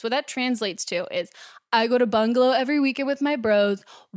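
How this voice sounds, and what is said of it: Impression of a trendy LA guy. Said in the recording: “doing an impression of me? Because that sounded spot on”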